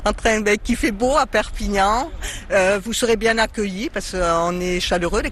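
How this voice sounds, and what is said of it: Regional French accent. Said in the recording (French): “votre accent nous transporte”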